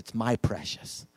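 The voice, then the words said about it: Poor Gollum impression. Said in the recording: “bad impression ... I don't do him very well”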